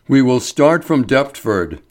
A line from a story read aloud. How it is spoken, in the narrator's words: said Ferguson